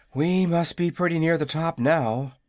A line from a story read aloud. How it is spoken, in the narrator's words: said the boy, as they climbed wearily